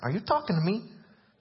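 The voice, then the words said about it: Put-on New Jersey accent. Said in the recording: “I've tried to do that with a New Jersey accent.”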